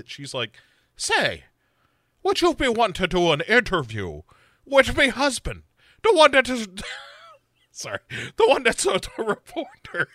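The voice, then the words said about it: Put-on accent. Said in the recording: “I'm just watching you react to the accent”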